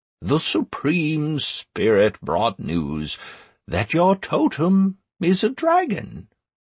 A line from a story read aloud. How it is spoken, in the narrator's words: said Almas, now in a calm voice